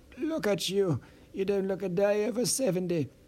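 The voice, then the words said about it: Labored, wheezing old woman's voice. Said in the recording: “she coughed ... spoke in a labored voice ... Bernadette wheezed”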